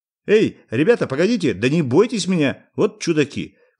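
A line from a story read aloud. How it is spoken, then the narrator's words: Shouting. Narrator (Russian): кричал корреспондент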